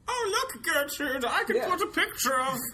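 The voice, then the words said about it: Old person voice. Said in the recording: “my old person impression... It wasn't very good”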